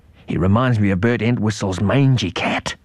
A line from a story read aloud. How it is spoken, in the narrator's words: whispered Mum